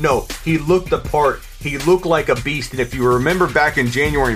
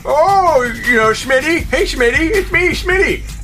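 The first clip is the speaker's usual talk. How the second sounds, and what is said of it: Speaker mockingly imitating his own voice. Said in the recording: “this is me now in my own voice.”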